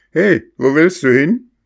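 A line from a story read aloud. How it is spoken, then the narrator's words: Old man calling out. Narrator (German): rief ihm der alte Fischer zu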